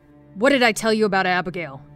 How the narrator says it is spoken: yelled

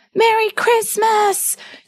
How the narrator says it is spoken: he shouted

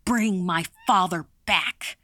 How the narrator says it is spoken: shouted

